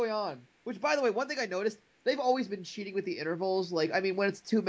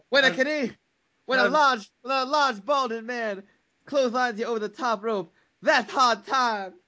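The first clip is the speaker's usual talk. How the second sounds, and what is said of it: Imitates another person's voice. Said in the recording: “that Dusty Rhodes impression”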